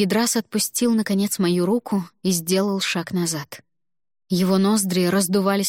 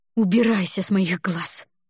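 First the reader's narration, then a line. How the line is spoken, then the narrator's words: Hissed reply. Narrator (Russian): прошипела я в ответ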